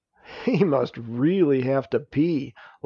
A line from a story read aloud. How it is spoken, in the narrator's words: laughed Narayana